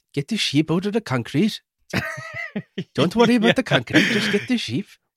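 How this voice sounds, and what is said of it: Attempted Welsh accent. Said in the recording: “I can't do a Welsh accent, but it's something like”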